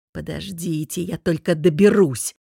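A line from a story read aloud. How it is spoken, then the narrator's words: Grumbling. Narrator (Russian): проворчал он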